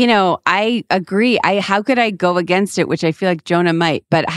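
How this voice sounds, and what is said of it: Usual voice. Nothing is said of it.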